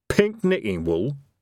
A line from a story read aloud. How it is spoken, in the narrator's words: said Evil Harry nervously